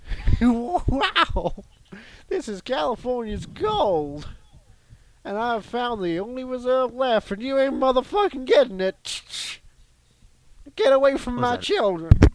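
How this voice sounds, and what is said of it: Imitates a TV show opening. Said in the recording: “my impression of the opening of Law and Order”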